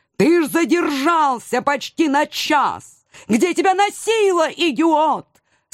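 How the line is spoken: Tearful wailing. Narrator (Russian): Со слезами в голосе завопил он

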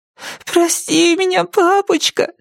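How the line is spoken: Muffled whimpering. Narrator (Russian): хныкала она, спрятав лицо у него на груди

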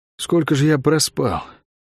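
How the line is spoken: Muttered. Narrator (Russian): пробормотал канатоходец

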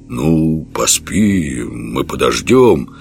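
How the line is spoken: Uncertain. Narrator (Russian): неуверенно сказал богатырь

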